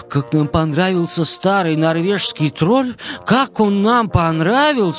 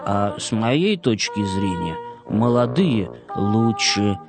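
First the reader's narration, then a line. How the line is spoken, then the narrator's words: Barely audible whisper. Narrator (Russian): еле слышно прошептал дождевой червяк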